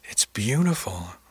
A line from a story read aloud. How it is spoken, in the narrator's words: I sighed